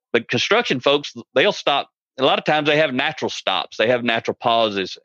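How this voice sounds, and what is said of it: American country accent. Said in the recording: “You probably tell by my accent. I'm bilingual. I speak English and country.”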